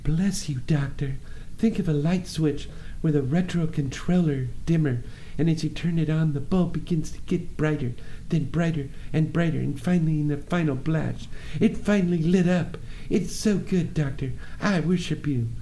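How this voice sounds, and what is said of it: Marilyn Monroe impression. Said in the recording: “said Marilyn Monroe. Sorry, I probably didn't know that impression that well, but I thought it was good.”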